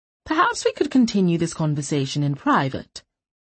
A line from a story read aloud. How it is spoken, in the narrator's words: she said in a reasonable tone